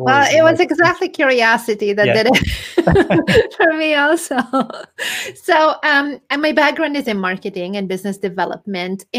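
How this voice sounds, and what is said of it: European accent. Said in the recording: “your accent. You're originally from Europe.”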